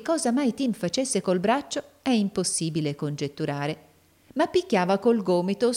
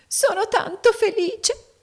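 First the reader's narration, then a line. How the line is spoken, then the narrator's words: Sobbing, small woman. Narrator (Italian): singhiozzò la piccola donna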